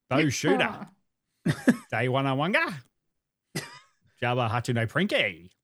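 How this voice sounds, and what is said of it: Alien language in Australian accent. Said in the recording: “if you're going to speak Hutti, do it in Australian.”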